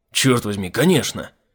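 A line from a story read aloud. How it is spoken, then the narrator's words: Snort. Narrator (Russian): фыркнул Айзек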